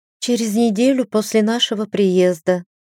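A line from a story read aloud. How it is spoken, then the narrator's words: Young woman sighing. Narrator (Russian): вздохнула девушка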